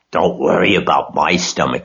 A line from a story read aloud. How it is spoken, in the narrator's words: snarled Templeton